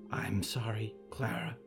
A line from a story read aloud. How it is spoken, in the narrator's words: a voice whispered